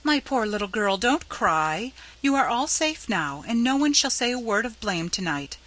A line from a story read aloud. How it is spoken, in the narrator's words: said Mrs